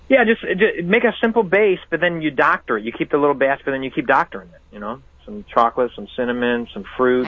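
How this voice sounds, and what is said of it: Chicago accent. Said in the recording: “you got a wild accent ... that's the accent, Chicago”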